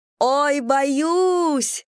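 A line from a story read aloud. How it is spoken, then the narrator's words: Frightened yelling. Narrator (Russian): завопила Анна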